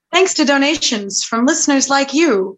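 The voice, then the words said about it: Old-timey radio announcer voice. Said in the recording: “my timey radio announcer voice”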